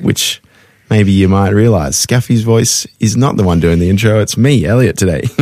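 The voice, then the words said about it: Polished radio presenter voice. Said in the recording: “You've got a good radio voice”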